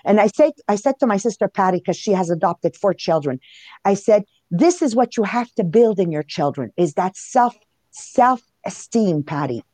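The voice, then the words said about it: Heavy Italian accent. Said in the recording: “for my case, a heavy Italian accent”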